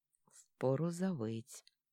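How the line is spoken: Quiet, through gritted teeth. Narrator (Russian): тихо, скрежеща зубами

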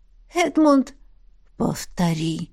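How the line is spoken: Sensual hoarse whisper. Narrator (Russian): Раздается в мыслях чувственный хриплый шепот

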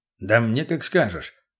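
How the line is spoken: Rumbling into beard. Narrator (Russian): прогудел в бороду тот

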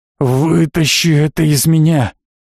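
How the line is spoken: Hoarse wheeze. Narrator (Russian): прохрипел Евсей

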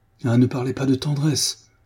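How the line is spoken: Exclaimed. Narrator (French): s'écria-t-il

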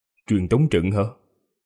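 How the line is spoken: Quiet. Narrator (Vietnamese): Vương Lâm nhỏ giọng nói

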